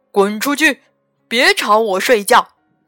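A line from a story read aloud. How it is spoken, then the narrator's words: Terrifying, booming voice. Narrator (Chinese): 他那吓人的声音差点儿把墙壁震倒了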